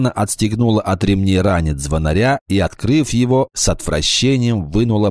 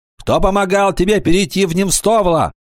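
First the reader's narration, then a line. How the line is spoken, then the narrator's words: Shout. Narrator (Russian): закричал Кикаха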